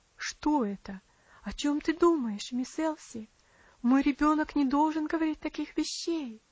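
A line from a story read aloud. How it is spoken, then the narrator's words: Alarmed exclaiming. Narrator (Russian): воскликнула тетушка Хлоя в сильной тревоге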